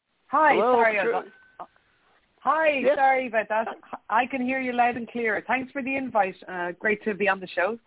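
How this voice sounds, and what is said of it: Irish accent. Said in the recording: “You're calling from Ireland, if I'm hearing the right accent... It's a beautiful accent”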